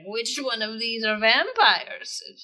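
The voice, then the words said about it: Unconvincing put-on British accent. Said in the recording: “Is that your idea of a British accent?”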